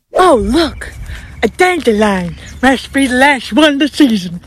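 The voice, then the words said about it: Impression of cartoon character Sid. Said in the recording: “she's quoting Sid from Ice Age, and I give her an A+ for her impression.”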